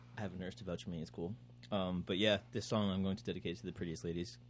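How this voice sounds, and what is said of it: Impaired, unclear speech. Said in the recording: “I bit my tongue, so I can't talk like a normal person.”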